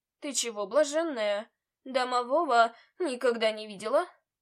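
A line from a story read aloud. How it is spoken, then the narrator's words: Grumbling. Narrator (Russian): Вновь проворчал он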